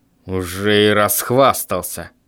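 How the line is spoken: Father grumbling. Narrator (Russian): пробурчал папа

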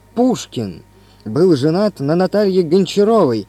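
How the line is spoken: Exclaimed. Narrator (Russian): воскликнул я

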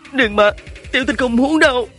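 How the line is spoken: Sobbing. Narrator (Vietnamese): Hứa Tình khóc nức nở, nói

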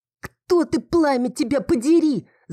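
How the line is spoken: Shouting. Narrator (Russian): закричала

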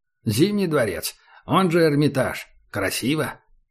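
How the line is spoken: Wry snort. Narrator (Russian): Убер хмыкнул

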